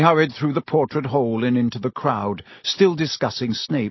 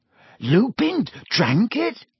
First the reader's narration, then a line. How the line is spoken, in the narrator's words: he gasped